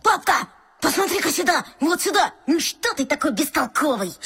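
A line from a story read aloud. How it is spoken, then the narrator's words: Sudden squeak. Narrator (Russian): Саблеонок неожиданно пискнул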